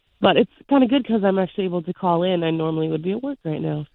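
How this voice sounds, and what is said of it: Sick-sounding voice. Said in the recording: “Excuse my voice. I am home sick right now.”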